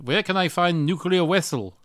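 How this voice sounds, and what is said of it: Put-on Russian accent. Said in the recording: “in a Russian accent”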